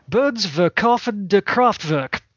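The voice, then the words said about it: Bad put-on German accent. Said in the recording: “my terrible German accent”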